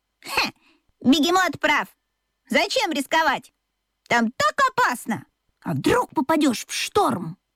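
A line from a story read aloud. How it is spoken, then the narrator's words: Exclaiming. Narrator (Russian): воскликнула Чита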